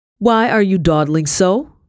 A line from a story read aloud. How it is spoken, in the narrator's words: she yelled